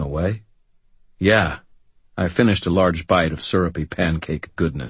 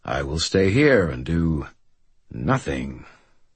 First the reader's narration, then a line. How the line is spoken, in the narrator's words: Thomas said, his voice a little bitter